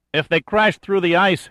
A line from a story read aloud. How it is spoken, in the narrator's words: shouted Hoskins above the wind,